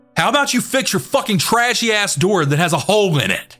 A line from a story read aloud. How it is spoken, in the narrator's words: John then yells